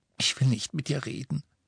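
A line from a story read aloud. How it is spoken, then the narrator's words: Choked voice. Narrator (German): sagte sie mit erstickter Stimme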